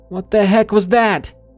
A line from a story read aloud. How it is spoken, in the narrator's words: flew up in my bed and yelled out into the darkness